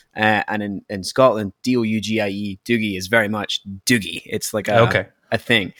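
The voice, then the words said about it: Scottish accent. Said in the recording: “you may notice, listeners, from my accent that I'm not from Canada. I'm from Scotland.”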